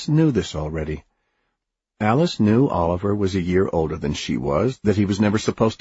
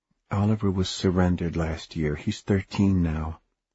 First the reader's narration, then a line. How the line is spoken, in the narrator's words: Mother said softly